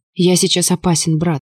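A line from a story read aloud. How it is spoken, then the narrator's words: Hoarse, barely intelligible growl. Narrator (Russian): прорычал сильно просевшим, огрубевшим голосом, и слова были едва различимы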